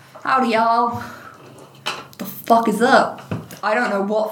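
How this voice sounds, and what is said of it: Texan accent drifting to West Coast. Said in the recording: “He just went from Texas to like West Coast.”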